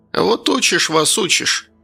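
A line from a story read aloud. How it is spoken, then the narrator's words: Old woman's sigh. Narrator (Russian): вздохнула баба Валя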